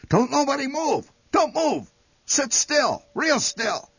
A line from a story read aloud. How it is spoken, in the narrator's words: Instantly, the old man shouted